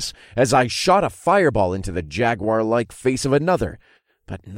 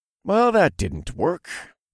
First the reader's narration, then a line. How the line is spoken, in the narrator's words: I said in a thoughtful voice